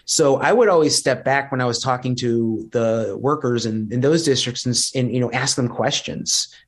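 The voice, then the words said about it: Thick Chicago accent. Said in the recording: “me with this thick Chicago accent”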